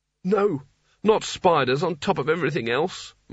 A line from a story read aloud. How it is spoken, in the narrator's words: moaned Rincewind